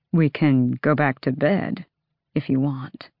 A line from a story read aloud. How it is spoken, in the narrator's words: he murmured